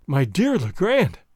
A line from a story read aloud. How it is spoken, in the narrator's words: I cried, interrupting him